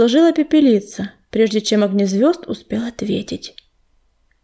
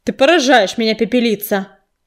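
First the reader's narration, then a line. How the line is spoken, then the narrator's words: Angry retort. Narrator (Russian): Сердито бросил огнезвезд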